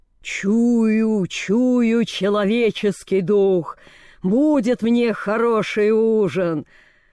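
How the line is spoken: Thunderous bestial growl. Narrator (Russian): словно гром прогремел, Айн зарычал по-звериному

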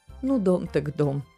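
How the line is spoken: Grandmother laughing. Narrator (Russian): засмеялась бабушка

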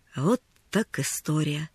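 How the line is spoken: Boy's breathless exclamation. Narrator (Russian): выдохнул мальчик

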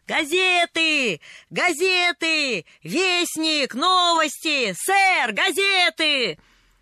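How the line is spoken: Shouting. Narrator (Russian): Полиана услышала, как он кричал

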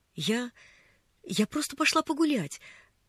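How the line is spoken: Babbling. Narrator (Russian): залепетала Поляна

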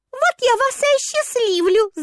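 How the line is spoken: Loud laughter. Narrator (Russian): захохотала Барби

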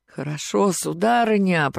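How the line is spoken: Moaning. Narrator (Russian): простонал Кистунов

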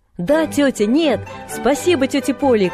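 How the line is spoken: Shouted. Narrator (Russian): крикнула Поллианна

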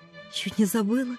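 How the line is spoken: Soft giggle. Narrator (Russian): Тихо хихикнула она

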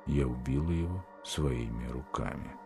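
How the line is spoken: Flat, lifeless voice. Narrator (Russian): повторила мертвым голосом

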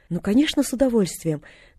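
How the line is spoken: Eager exclamation. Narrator (Russian): тут же воскликнула Полиана

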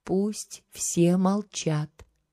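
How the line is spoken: Slow speech. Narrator (Russian): медленно проговорила она

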